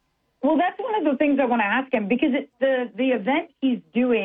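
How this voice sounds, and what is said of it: Usual voice. Nothing is said of it.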